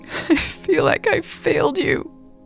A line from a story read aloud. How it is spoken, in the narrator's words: Elle sobbed louder